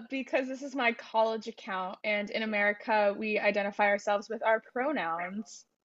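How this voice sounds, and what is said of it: American accent. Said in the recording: “You sound very American.”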